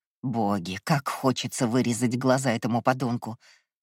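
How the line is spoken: Threatening hiss. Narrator (Russian): зашипела, угрожающе придвигаясь

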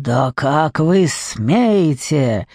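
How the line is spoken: Hissed. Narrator (Russian): зашипел он

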